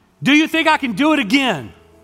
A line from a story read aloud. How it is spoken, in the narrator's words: he yells out